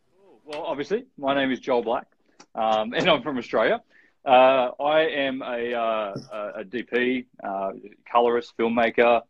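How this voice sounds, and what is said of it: Australian accent. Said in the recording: “Listen to that accent ... Aussie”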